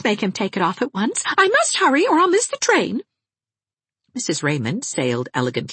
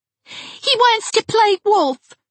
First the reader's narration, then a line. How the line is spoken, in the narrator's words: cried Geraldine